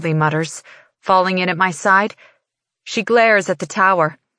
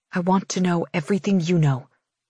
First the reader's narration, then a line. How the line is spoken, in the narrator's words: I whisper to Farley